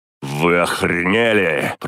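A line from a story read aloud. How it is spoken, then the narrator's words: Angry growl. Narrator (Russian): прорычал я, узнав в них стражников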